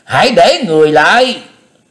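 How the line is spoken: Loud shouting. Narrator (Vietnamese): Tâm Tâm đại sư lớn tiếng quát tháo

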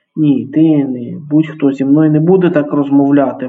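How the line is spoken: Exclaiming. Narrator (Ukrainian): вигукнув Алекс

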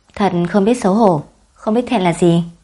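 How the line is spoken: Indignant angry scolding. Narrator (Vietnamese): Lâm Lang tức giận bất bình khiển trách một lần nữa

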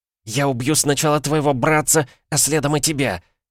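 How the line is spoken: Hissed. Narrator (Russian): зашипела Мадлен

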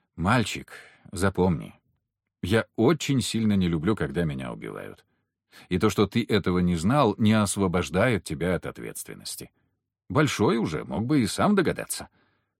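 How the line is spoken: Said gently. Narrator (Russian): ласково сказал

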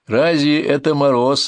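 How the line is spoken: Laughing. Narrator (Russian): рассмеялся отец Алексей

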